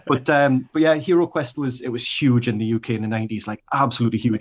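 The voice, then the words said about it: British accent. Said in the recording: “I grew up in the UK, obviously, you can tell from the accent ... I've been in Australia a while now and the accent's going nowhere”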